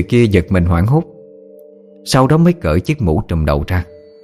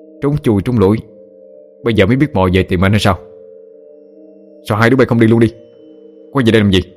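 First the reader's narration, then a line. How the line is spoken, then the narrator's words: Angry voice. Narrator (Vietnamese): giọng nói có vẻ tức giận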